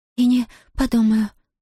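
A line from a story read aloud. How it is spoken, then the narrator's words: Breathy exhale. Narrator (Russian): выдохнула Зия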